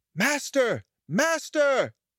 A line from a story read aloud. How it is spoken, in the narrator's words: the harp called out